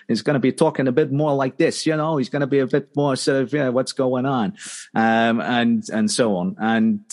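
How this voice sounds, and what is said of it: Put-on New York accent. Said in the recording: “he's probably going to have a New York accent.”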